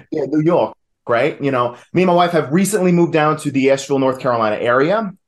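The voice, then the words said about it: New York accent. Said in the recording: “I am originally from New York, if you couldn't tell by the accent.”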